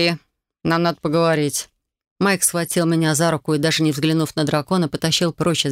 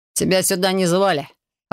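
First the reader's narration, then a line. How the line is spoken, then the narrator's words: Snapping. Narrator (Russian): огрызнулся Майк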